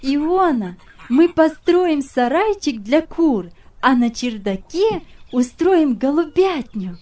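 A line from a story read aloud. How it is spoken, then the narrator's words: Cheerful girl. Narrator (Russian): сказала девочка, весело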